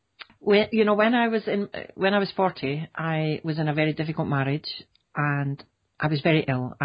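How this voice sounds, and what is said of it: Scottish accent. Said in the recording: “Scotland. You can hear the twang in my voice ... I can. It's beautiful.”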